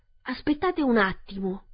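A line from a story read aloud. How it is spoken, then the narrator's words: Exclaimed. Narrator (Italian): esclamò lo spaventapasseri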